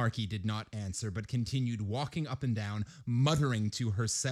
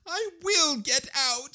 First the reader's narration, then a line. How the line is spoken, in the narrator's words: sobbed